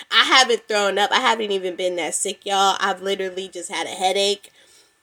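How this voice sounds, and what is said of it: Slightly congested, stuffy voice. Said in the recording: “My nose been stuffed up a little bit. That's why I sound a little congested”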